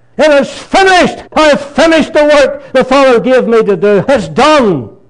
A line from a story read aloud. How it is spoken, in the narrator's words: with a great shout